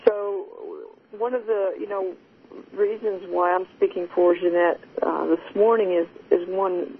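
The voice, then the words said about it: Texan accent. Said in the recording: “now I'm worried about my Texan accent”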